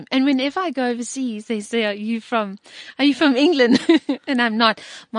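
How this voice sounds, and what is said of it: Strong British-sounding accent. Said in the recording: “such a strong British accent”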